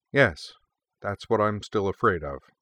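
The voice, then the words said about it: Deadpan, flat delivery. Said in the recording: “deadpanned”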